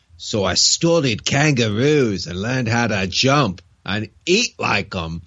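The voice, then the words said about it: Deliberately bad Australian accent. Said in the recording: “he's got to be Australian ... I'm going to do a really bad accent here.”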